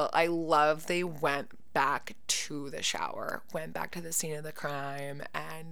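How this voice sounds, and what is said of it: Usual voice. Nothing is said of it.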